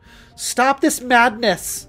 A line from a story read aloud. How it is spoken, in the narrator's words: cried at him